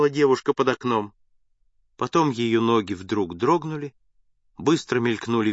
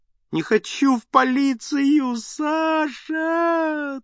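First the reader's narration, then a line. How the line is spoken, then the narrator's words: Mournful wailing, young woman. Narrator (Russian): тоскливо вопила девушка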